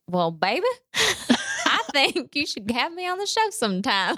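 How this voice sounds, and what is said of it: Put-on Southern accent. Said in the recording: “my dad, in his southern accent”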